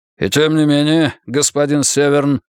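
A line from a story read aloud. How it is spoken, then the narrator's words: Dry tone. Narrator (Russian): сухо произнес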